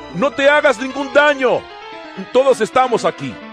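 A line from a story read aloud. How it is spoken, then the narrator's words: Shouted. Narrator (Spanish): Pablo le gritó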